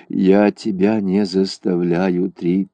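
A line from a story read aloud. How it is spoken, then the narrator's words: Sad. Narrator (Russian): грустно сказал Ун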